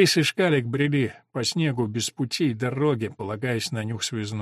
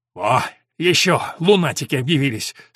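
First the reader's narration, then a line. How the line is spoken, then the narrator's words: Triumphant, angry yell. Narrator (Russian): с торжеством и злостью заорал связист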